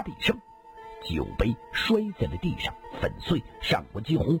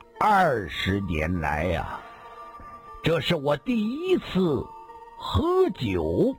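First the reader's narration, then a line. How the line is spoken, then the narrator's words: Slow. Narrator (Chinese): 上官金鸿缓缓说道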